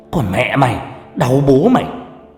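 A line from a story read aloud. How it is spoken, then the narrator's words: Furious yelling. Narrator (Vietnamese): Vừa đập tôi vừa gào lên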